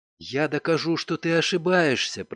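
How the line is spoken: Whispered. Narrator (Russian): прошептала она

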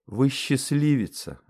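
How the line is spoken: Sighing saleswoman. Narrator (Russian): вздохнула продавщица

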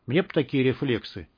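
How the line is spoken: Quiet speech. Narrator (Russian): тихо сказал связист

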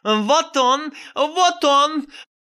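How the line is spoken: Frenzied yelling. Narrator (Russian): заорала, как безумная Кикимора болотная

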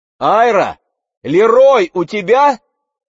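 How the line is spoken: Shouting. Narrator (Russian): крикнула Мэгги

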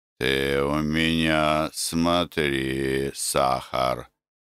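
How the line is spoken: Affectionate grumble. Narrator (Russian): Ласково ворчал Лука Назарыч

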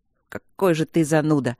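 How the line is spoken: Grumbling. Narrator (Russian): буркнул Мартин

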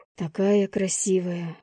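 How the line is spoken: Breathless awe. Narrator (Russian): выдохнул я

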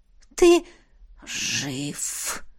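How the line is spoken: Wheezing spirit. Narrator (Russian): просипел дух

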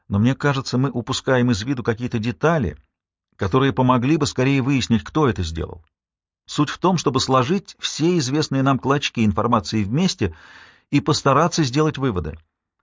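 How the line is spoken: Fast speech. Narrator (Russian): заговорила я быстро

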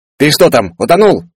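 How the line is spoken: Yelled. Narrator (Russian): заорал он

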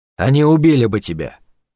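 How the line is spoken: Cold. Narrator (Russian): ответил он холодно

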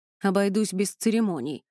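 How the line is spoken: Grumbling. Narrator (Russian): проворчал Элай

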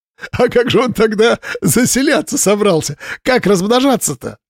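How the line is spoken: Laughing. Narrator (Russian): Слава так и смеялся

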